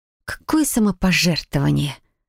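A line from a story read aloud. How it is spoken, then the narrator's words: Forced, through teeth. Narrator (Russian): процедила я, буквально выдавив из себя улыбку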